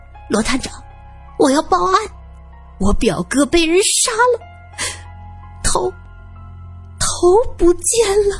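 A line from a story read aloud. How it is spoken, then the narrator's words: Hoarse, desperate. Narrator (Chinese): 就像见到了救命稻草，声音沙哑着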